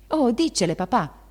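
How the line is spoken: Shouted. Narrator (Italian): gridò Meg

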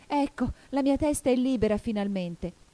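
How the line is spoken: Joyful exclaiming. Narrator (Italian): esclamò Alice gioiosa

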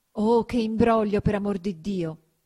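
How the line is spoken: Exclaiming. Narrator (Italian): esclamava Agnese

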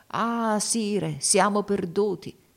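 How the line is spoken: Exclaimed. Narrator (Italian): battendosi il volto, esclamò

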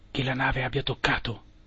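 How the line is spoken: Quiet question. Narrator (Italian): chiesi sottovoce

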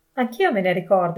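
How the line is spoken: Exclaimed. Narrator (Italian): esclamò Pietro

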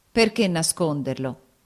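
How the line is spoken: Plain. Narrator (Italian): disse

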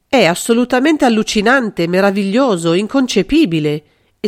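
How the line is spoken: Flattering exclamation. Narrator (Italian): esclamò Carlo, deciso oramai a blandire l'orgoglio del sinistro detentore d'un potere tanto spaventoso

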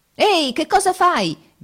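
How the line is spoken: Shouted. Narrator (Italian): gridate

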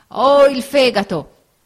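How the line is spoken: Old man shouting. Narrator (Italian): gridò il vecchio

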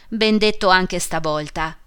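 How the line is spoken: Shouted. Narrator (Italian): gridò il buon signor Wilson

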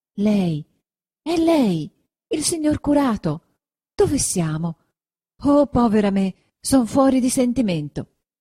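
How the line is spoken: Exclaimed. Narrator (Italian): esclamò

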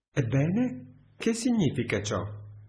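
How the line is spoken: Exclaimed. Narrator (Italian): esclamò Alberto

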